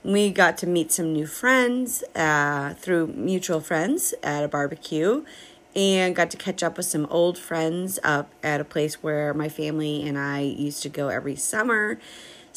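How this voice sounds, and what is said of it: Crackly, slightly hoarse voice. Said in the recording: “as you probably can tell, my voice is a little crackly ... we did a lot of talking this weekend and a lot of woohooing”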